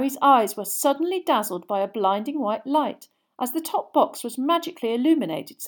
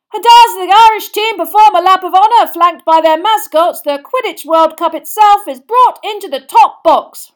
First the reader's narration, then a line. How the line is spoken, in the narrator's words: roared Bagman